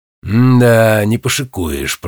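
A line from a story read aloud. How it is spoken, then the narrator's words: Drawling. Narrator (Russian): протянул шкипер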